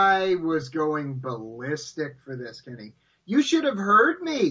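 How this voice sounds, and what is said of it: Usual voice. Nothing is said of it.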